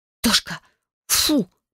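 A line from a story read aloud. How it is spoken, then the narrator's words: Hissing. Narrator (Russian): прошипела я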